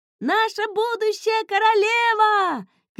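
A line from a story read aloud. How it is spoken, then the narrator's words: Children shouting while running. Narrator (Russian): кричали дети на бегу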